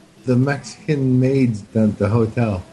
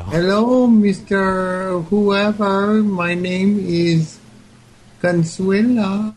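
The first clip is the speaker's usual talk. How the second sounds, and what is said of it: Imitated Mexican woman's accent. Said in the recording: “do an impression of a Mexican lady in Tennessee”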